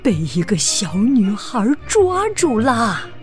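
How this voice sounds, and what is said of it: Scary voice. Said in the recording (Chinese): “绒毛妈妈用可怕的声音说”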